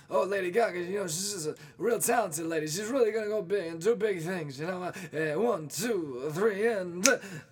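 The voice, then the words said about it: Imitates another person's voice. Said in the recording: “my impression of, you know, Tony Bennett before he plays a song. That's his banter.”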